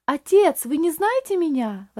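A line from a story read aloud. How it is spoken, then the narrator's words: Strained exclamation. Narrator (Russian): воскликнул Рейли, с трудом беря себя в руки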